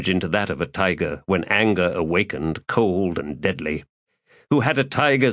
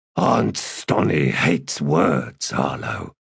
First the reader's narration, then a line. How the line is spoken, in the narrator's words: Gruntle had explained